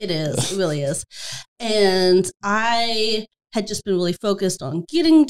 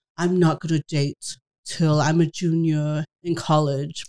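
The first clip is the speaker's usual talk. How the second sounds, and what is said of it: Imitates another person's voice. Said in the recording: “a pretty blah, spot on impersonation of me”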